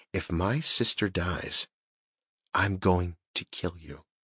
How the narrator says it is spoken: Within inches of his face, in a quiet voice, she said

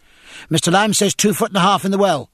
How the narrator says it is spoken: said the midshipman, panting

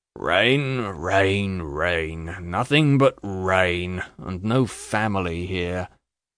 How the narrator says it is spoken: with a gloomy yawn

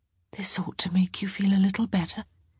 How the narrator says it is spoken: she whispered

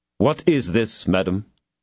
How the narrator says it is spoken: he asked coldly

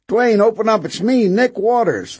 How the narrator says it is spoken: the new visitor shouted

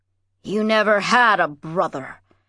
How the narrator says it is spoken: he said bitterly

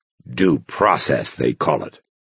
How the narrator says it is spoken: growled

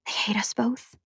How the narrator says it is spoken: I whispered

